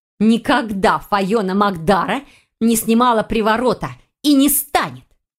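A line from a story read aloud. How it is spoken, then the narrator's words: Hissing reply. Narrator (Russian): прошипела ведьма в ответ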